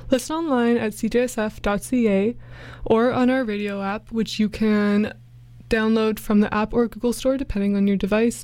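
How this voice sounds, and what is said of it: Out of breath, breathy speech. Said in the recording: “I'm a little out of breath because I was just dancing away”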